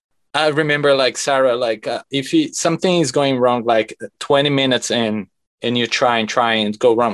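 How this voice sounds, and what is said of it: Speaks with a noticeable accent. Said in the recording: “she always makes fun of my accent.”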